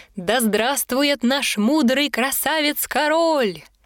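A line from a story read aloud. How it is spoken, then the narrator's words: Crowd shouting. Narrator (Russian): кричал народ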